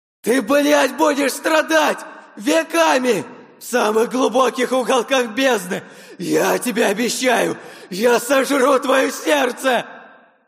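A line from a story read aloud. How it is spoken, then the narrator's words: Shouting in agony. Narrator (Russian): Кричал сквозь боль и агонию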